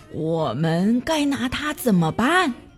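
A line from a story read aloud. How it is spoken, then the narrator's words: Gentle, large speaker. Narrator (Chinese): 又高大又温柔，膝盖毛茸茸的考斯利先说话了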